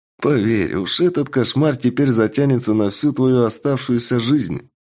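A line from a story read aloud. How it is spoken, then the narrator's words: Quiet chuckle. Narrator (Russian): Хохотнула лиса, впрочем, довольно тихо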